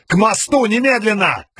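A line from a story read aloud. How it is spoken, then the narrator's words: Shouted. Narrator (Russian): крикнул он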